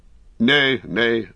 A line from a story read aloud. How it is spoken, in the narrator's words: Beregund laughed